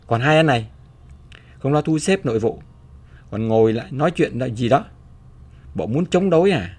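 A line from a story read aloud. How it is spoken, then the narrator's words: Barking voice from behind. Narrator (Vietnamese): một giọng quát từ sau lưng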